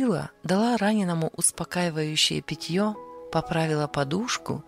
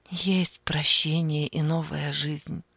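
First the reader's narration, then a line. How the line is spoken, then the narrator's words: Soft voice. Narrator (Russian): мягко сказала она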